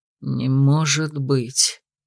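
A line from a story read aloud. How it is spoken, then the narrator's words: Breathless exclamation. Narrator (Russian): Выдохнул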